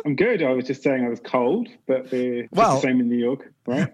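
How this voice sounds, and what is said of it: British English accent. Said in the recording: “do we detect an accent here ... being British, we kind of know it, the accent gets places”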